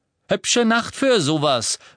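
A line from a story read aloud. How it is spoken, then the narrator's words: Called out. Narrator (German): rief Fred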